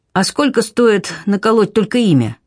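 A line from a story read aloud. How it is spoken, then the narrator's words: Trembling-voiced question. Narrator (Russian): спрашивает дрогнувшим голосом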